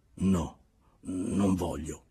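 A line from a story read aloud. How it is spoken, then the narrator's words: Grumbling mutter. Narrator (Italian): borbottò Glebov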